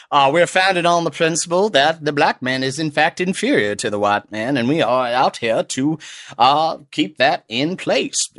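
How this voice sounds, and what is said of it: Put-on southern US accent. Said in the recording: “It's a good southern accent.”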